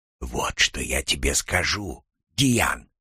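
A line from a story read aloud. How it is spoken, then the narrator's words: Barely audible whisper. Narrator (Russian): зашептал он, настолько тихо, что я едва разбирал его слова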